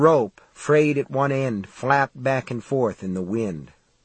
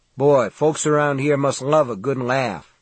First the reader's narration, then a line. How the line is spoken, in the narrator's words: Steve said